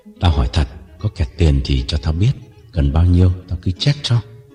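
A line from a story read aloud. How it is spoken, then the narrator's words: Hesitant, lowered voice. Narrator (Vietnamese): Mẫu lưỡng lự một chút rồi hạ giọng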